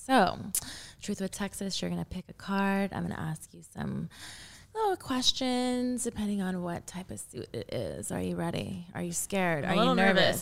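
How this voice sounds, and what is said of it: Sultry, seductive voice. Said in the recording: “you're using your sexy voice... That's like my phone sex operator voice. I feel like you're seducing us.”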